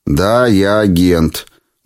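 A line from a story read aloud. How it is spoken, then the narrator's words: Gloomy. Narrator (Russian): мрачно сказал я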